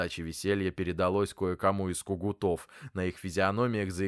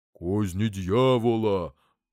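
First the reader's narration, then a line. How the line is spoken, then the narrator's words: Deep bass voice. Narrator (Russian): пробасил поп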